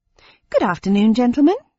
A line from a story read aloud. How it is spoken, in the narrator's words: I said in a friendly tone